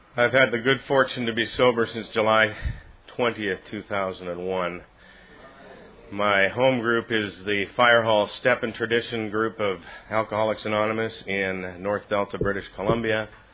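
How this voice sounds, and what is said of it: Canadian accent. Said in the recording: “my Canadian accent, eh?”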